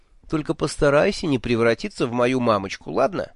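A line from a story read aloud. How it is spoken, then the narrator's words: Snide request. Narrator (Russian): ехидно попросил я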